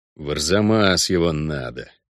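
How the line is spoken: Angry words through teeth. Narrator (Russian): зло процедил Геральт

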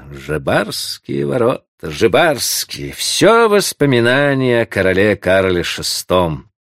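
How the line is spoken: Smirking through teeth. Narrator (Russian): усмехался, повторяя сквозь зубы

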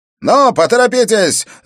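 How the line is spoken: Shouted. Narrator (Russian): закричал Хаскам

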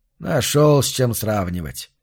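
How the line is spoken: Contemptuous snort. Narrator (Russian): презрительно фыркнул Карл Фрам

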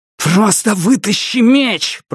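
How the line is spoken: Growling. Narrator (Russian): прорычал Дайн

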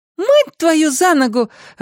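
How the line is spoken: Joyful. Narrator (Russian): радостно подхватил сын

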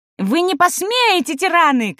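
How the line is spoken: Shout. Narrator (Russian): кричал он

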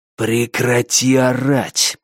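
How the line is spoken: Hissed. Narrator (Russian): прошипел он

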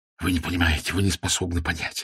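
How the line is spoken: Babbling. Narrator (Russian): лепетал он

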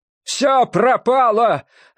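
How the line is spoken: Desperate shout. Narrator (Russian): отчаянно крикнул священник

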